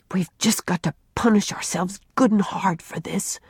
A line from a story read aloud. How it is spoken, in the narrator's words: whispered Jerry